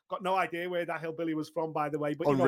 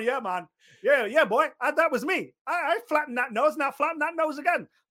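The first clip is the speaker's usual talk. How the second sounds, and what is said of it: Exaggerated Aussie hillbilly accent. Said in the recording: “mad little Aussie hillbilly from somewhere mad ... Unreal accent.”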